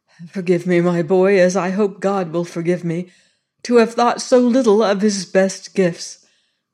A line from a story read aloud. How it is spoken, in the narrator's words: cried Lord Gowrie, coming back with wet eyes